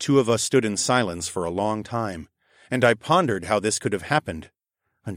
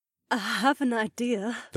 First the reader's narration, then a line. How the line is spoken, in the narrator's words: the redhead murmured